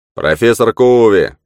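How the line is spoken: Shouting from distance. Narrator (Russian): крикнул Йоргенсен из своего места

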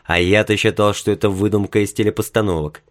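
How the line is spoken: Mumbling. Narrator (Russian): пробормотал Билл

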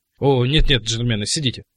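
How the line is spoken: Whisper. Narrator (Russian): прошептал сэр Джон

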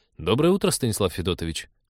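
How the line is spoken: Mild reproach. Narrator (Russian): с легким упреком сказал он

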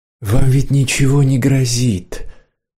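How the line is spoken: Soft, gentle. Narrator (Russian): сказала она мягко

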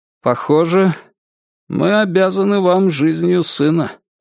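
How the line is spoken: Impassive tone. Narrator (Russian): произнес Роджер тем же бесстрастным тоном

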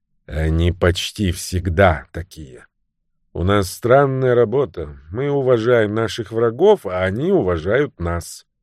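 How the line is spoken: Sighing. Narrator (Russian): Вздохнув, Грант сказал

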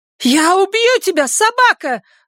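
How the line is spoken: Yelling. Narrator (Russian): заорала вода

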